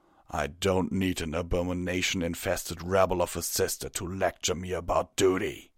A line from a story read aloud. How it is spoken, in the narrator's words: Tirado growled